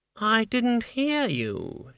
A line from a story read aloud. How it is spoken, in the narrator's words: she purred